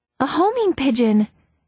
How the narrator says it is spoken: Nancy exclaimed, seeing the tiny metal tube attached to its leg

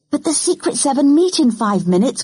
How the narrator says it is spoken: cried Janet

